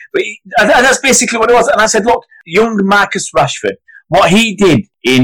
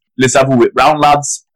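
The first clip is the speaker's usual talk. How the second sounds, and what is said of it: Weak put-on Geordie accent. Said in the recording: “my poor Geordie accent there”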